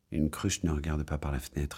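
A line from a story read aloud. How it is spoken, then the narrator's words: Plain. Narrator (French): dit-il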